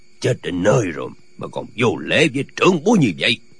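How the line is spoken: Said coldly. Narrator (Vietnamese): lạnh lùng nói

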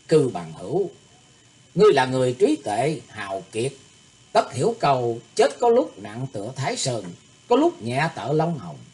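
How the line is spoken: Smiling. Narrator (Vietnamese): Thủy Tuấn Hạo mỉm cười tiếp lời gã

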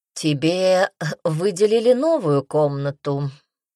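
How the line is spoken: Almost lazy, from behind. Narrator (Russian): почти лениво произнес Мел у нее за спиной

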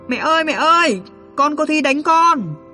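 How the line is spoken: Loud child's scream. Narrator (Vietnamese): Mình hét ầm lên

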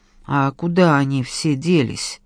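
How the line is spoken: Uncertain question. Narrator (Russian): неуверенно спросил я

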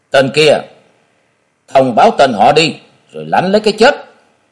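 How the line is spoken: Barked demand. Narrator (Vietnamese): Lưu Trọng Nghĩa quát hỏi

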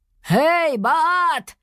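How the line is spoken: Shout. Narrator (Russian): крикнул он

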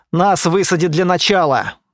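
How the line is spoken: Grumbled over the radio. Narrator (Russian): Буркнула рация голосом Стаса

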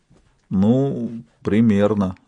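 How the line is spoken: Forced out. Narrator (Russian): выдавил он

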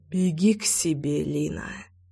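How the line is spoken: Beast's mutter. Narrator (Russian): Наконец пробормотал зверь

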